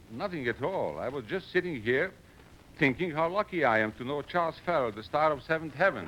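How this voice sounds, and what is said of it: Continental European accent. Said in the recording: “continental accent”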